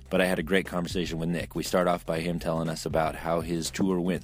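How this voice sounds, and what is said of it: Hoarse, nearly lost voice. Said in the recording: “every time I get a cold ... Me, I really don't have a voice. ... my voice is gone.”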